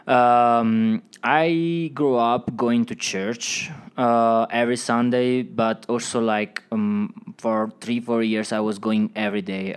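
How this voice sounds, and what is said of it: Italian accent. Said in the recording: “I know you're from Italy. We can hear the accent”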